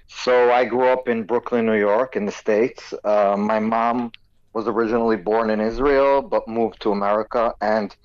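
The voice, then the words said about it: Strong American accent. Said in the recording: “you've got a very strong American accent.”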